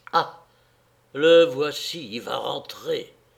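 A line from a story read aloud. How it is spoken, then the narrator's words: Fearful murmur. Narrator (French): murmura Antphasie, reprise de sa peur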